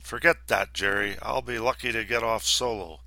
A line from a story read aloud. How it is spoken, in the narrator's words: Wilson, as crabby as I had ever seen him, just rumbled